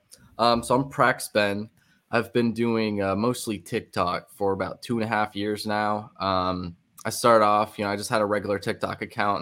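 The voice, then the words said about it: Sick, rough-sounding voice. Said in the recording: “I'm a bit sick tonight, so I sound kind of awful”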